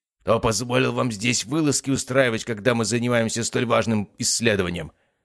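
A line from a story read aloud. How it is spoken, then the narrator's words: Rough, harsh address. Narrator (Russian): Довольно грубо и жестко обратился он к старшему магу отряда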